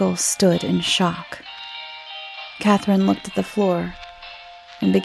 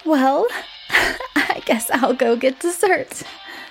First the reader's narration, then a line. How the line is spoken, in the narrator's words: said with a nervous chuckle